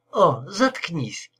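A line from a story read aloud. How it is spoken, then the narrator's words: Irritated reply. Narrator (Russian): ответила она раздраженно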